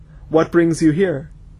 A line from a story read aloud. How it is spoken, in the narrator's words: he said coldly